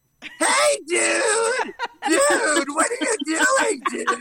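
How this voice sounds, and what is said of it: Imitates another person's voice. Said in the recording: “Are you doing a different voice?”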